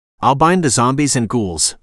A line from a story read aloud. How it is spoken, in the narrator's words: the spider said firmly